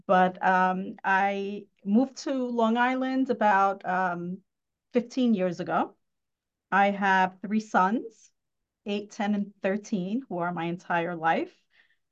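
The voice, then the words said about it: New York Queens accent. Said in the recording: “I was born and raised in Woodside and Astoria. So my accent probably already disclosed that.”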